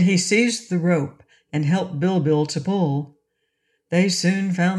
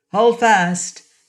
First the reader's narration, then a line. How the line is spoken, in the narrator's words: shouted Inga